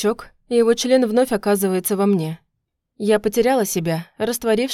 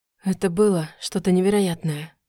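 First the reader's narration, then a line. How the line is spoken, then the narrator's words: Whisper. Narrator (Russian): прошептал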